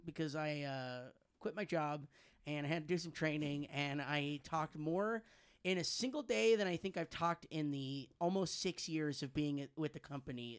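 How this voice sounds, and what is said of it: Hoarse, nearly lost voice. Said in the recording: “I sound terrible right now... You sounded like you need to clear your throat... I lost my voice... My voice is shot... pardon the lack of a voice”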